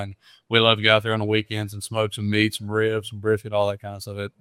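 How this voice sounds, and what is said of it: Mississippi Southern accent. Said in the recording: “I'm from Stauffville, Mississippi. ... you got that accent. I can hear it for sure.”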